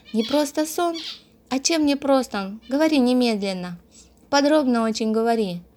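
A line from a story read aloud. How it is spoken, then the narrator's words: Joyful speech. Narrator (Russian): заговорила радостно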